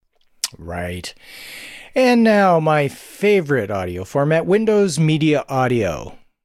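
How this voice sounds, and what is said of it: Heavy dripping sarcasm. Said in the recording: “the sarcasm in my voice ... dripping. ... Dripping.”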